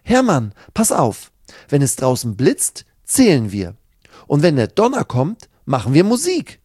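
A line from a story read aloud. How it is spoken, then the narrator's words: Excited call. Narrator (German): ruft Sina begeistert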